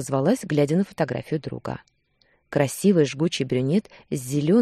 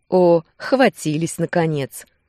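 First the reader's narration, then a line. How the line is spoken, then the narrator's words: Laughing. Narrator (Russian): рассмеялся Руслан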